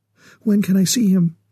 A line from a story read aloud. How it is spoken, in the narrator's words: she asked eagerly